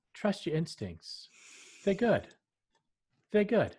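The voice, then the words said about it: Impression of a friend's voice. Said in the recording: “your Paul impression”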